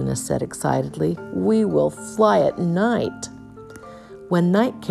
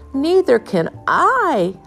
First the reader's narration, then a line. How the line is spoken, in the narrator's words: howled Flitter